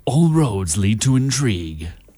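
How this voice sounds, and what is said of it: Deep American movie-trailer voice. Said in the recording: “put on my best movie trailer accent... like the big, like the crazy, like the really deep American voice that comes on and does your movie trailer”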